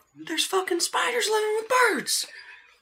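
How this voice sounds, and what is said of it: Character accent slipping between voices. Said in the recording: “I was gonna try and do like a Hosea accent, but I keep slipping to an uncle accent”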